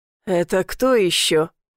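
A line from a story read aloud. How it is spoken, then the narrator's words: Gruff grumble. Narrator (Russian): буркнул татуированный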